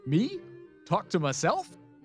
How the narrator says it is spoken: He slapped his knee and laughed, not very convincingly

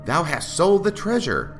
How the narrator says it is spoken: Pylon cried fiercely

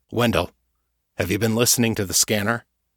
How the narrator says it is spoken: Schubert sighed heavily

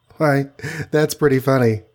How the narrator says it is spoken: laughed the Wasp

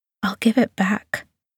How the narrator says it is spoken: whispers

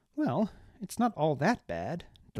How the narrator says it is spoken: Deliratus said with a nervous laugh

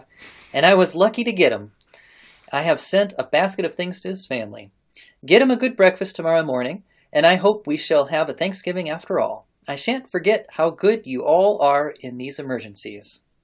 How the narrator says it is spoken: she announced calmly

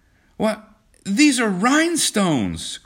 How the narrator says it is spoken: cried John

